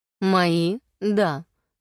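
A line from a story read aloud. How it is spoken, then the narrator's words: Calm. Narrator (Russian): спокойно заявил Блейд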